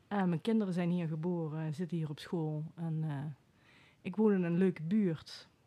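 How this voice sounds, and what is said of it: Venlo accent, not Den Bosch. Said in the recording (Dutch): “Als ik jouw accent hoor, dan denk ik van inderdaad geen bossenaar van ... Waar kom je vandaan? Venlo.”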